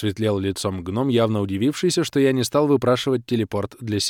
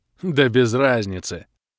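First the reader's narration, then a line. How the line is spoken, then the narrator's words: Dwarf's cheerful grumble. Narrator (Russian): радостно буркнул гном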